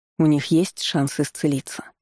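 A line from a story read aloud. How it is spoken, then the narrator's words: Sad question. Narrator (Russian): печально спросил Дмитрий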